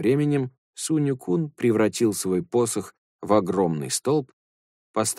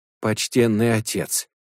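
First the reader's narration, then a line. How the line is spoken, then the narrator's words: Pleading servant. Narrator (Russian): взмолился слуга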